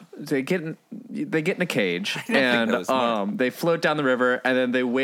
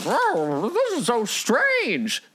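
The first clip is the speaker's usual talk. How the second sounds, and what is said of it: Imitates Dorothy's voice. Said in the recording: “Good Dorothy impression.”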